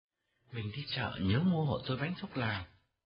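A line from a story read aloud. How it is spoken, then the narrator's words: Very gentle. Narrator (Vietnamese): Mão nói năng với Hậu dịu dàng lắm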